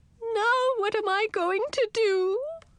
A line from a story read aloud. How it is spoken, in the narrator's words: wailed my aunt